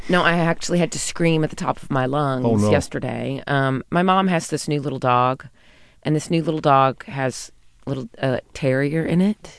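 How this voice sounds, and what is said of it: Slightly scratchy voice. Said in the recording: “as you can notice, probably, my voice is a little scratchy today.”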